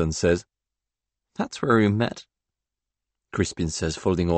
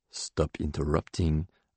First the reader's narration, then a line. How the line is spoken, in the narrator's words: I mutter